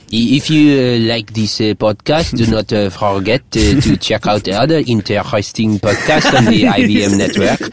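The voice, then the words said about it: Put-on French accent. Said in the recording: “Let me do it with a French accent.”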